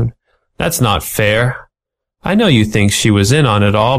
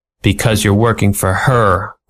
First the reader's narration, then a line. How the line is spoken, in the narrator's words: growled Ratty